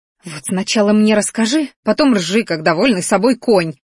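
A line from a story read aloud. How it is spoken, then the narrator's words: Vicious hiss. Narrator (Russian): злобно прошипела она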